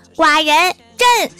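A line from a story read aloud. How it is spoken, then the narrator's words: Shouting. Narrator (Chinese): 郭晓霞喊道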